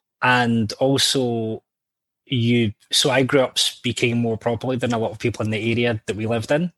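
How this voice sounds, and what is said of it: Mild Scottish accent. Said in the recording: “some people say I have an accent ... I'm kind of tame Scot because my mum's English, my dad was Scottish ... this kind of English-Scottish thing”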